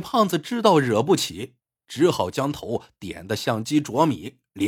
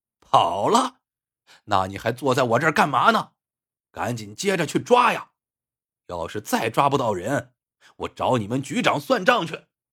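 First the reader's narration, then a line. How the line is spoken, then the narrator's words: Angry shout. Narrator (Chinese): 王兆军火了，大吼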